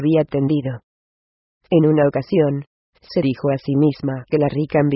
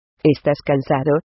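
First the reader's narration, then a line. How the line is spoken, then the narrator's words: Plain. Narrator (Spanish): le dijo Guión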